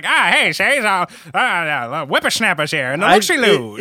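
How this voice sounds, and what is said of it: Old-timey accent. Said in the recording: “old-timey accent”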